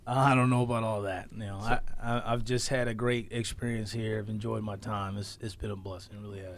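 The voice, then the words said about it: Mature, distinguished radio voice. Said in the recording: “you sound like an old man ... Like an older, distinguished guy ... you sound like you're older than me ... you have like a radio voice”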